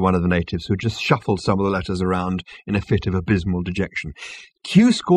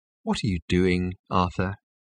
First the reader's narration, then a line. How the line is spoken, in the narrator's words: He asked quietly